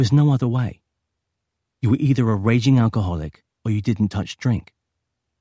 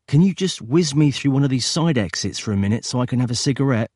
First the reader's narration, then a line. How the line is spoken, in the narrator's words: he'd said